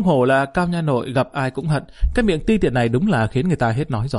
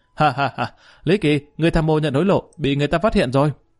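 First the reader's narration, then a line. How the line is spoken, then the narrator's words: Sudden loud laughter. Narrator (Vietnamese): y đột nhiên bật cười ha ha, nói với Lý Kỳ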